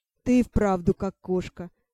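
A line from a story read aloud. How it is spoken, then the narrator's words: Laughing. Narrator (Russian): засмеялся повелитель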